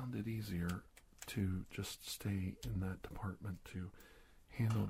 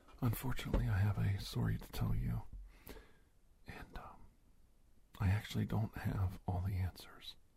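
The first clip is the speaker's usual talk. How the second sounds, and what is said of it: Softer, gentle speaking voice. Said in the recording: “I can speak in a softer voice so I don't make you nervous.”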